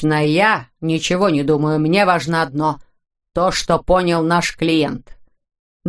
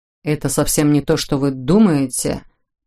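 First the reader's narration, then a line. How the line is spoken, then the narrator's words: Mumbling. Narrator (Russian): промямлил Сэм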